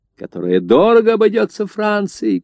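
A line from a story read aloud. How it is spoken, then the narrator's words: Shouting. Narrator (Russian): кричал Тьер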